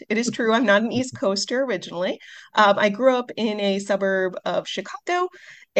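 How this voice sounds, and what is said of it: Midwestern American accent. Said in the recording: “you can hear it in my voice, a lot of people say they can hear the Midwest accent.”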